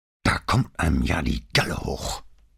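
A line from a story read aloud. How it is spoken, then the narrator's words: Growling. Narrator (German): knurrte Vianello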